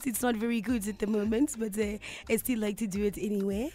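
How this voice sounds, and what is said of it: Husky put-on French accent. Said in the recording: “I absolutely love doing a French accent... You're lucky because you've got that husky voice, so it works out perfectly.”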